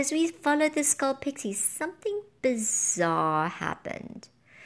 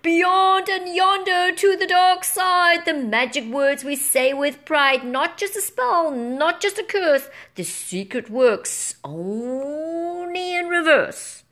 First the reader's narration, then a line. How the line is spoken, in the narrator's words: They shouted